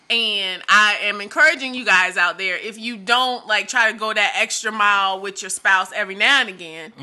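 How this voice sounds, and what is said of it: Strained, fading hoarse voice. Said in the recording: “I'm losing my voice because I'm laughing so hard.”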